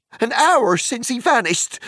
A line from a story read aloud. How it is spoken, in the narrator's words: shouted Sam